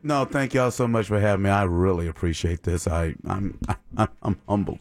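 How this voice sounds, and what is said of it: Put-on formal, polished voice. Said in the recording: “right now, I'm just putting on my astute voice”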